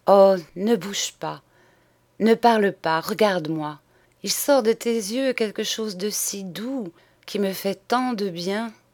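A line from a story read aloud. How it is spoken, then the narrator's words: Breathless intoxicated murmur. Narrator (French): murmurait, comme suffoquée d'enivrement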